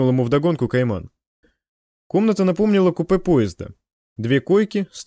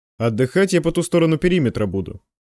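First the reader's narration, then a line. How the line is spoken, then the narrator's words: Grumbling. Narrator (Russian): проворчал Кайман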